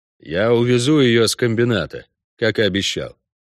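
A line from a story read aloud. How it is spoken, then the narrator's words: Dry reply. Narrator (Russian): сухо ответил Геральт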